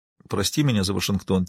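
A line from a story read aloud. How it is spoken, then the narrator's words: Quiet. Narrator (Russian): тихо произнесла она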